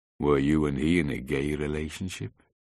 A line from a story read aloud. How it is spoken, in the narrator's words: the policeman asked in a deadpan tone of voice